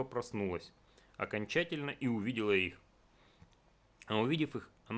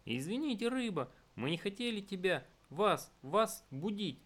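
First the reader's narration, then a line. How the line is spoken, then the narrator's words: Flustered babbling. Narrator (Russian): залепетал Потапум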